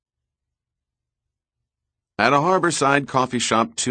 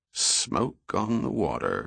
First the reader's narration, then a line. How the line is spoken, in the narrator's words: he muttered aloud